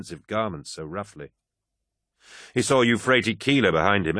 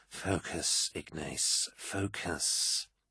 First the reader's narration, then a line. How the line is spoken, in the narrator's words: he whispered to himself